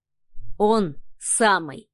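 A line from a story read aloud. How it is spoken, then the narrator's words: Sly, calm. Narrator (Russian): коварно улыбнулся Адмиралов СВ и спокойно добавил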